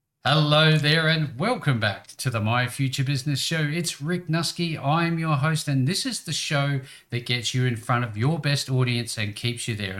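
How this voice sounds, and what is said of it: Welcoming Australian accent. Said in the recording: “you have a very welcoming Australian accent”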